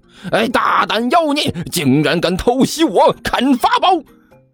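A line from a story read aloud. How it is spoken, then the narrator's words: Startled roar. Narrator (Chinese): 齐剑顿时惊呼一声，同时嘴里大吼了一声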